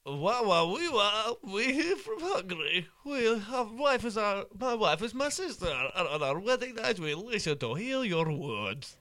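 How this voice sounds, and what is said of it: Borat impression. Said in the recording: “Is this your Borat impression?”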